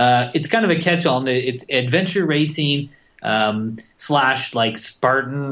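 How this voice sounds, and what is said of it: Usual voice. Nothing is said of it.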